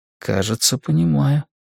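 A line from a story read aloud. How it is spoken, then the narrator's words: Soft. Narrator (Russian): мягко сказал я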